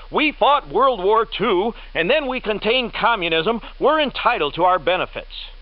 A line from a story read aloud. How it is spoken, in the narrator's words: One generation shouts